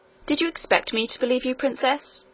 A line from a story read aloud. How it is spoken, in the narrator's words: asked the nurse coldly